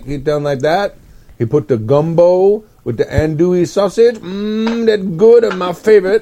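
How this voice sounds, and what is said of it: Put-on Cajun accent. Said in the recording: “Windy Drawers is Cajun ... The Raging Cajun ... My great uncle had a very similar accent”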